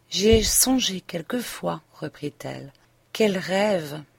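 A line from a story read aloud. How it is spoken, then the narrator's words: Murmuring. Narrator (French): murmura Léon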